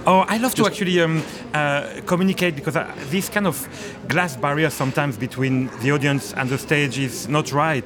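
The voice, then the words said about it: Charming French accent. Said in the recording (Dutch): “this charming French accent ... Well, you do.”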